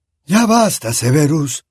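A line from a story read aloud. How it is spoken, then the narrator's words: Calm voice. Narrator (Spanish): dijo Dumbledore con voz tranquila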